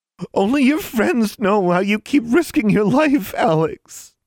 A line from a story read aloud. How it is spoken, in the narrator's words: Anna sobbed